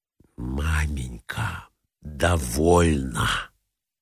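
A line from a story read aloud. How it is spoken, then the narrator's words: Whisper. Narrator (Russian): прошептала Зина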